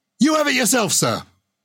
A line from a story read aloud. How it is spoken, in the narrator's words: And the prisoner shouted